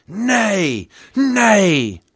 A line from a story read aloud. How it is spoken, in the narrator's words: roared back the crowd